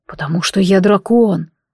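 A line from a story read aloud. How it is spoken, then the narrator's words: Quiet reply. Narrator (Russian): отозвался он тихо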